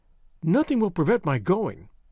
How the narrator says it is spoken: she said firmly

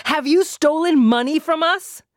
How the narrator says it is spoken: she shouted again

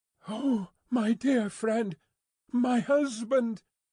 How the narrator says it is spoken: With the look fixed upon him in her paleness and wildness, she panted out in his arms, imploringly

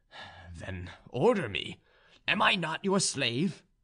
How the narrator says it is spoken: cried the young soldier

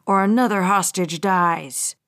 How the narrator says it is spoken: Bradley snarled

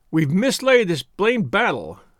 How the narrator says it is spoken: he shouted

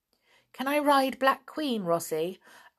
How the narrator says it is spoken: asked Nobby eagerly

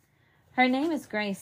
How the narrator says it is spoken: said Mother

